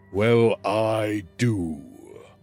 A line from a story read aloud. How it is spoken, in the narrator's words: Crodis said, his voice rumbling in his chest like distant thunder